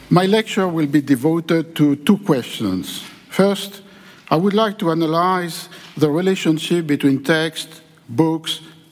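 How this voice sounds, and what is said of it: French-accented English. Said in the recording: “my perfect Gerard Depardieu's English accent.”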